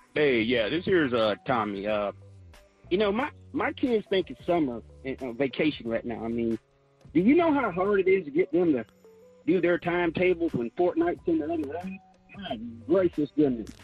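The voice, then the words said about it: Southern US accent. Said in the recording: “What is this accent? ... Did we get an affiliate in the South that I don't know about? ... Or are we airing in the outskirts of Birmingham or something?”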